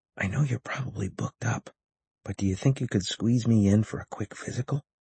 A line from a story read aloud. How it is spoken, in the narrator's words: whispered